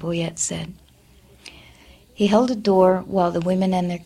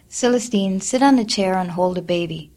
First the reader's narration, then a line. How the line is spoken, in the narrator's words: Leffy said